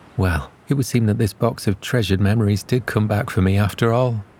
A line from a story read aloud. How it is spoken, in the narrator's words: she sighed and replied